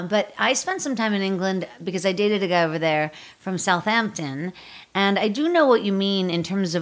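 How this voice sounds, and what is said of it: Usual voice. Nothing is said of it.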